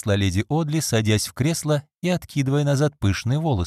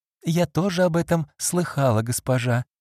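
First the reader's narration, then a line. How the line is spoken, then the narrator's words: Calm young woman. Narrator (Russian): спокойно ответила девушка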